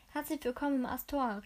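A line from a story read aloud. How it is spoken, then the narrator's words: Friendly call. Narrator (German): rief er freundlich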